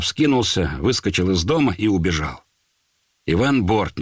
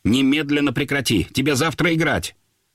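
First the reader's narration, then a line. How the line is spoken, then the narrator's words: Sharp scolding. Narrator (Russian): Любимов начал резко выговаривать Володе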